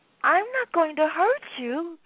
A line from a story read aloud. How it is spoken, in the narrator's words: pleaded Toby